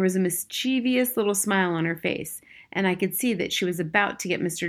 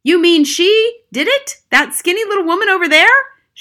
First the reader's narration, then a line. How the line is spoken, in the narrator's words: shouted Mr